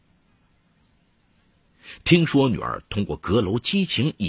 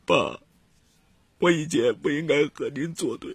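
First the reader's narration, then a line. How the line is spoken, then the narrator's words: Crying. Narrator (Chinese): 陆哥哥哭了，说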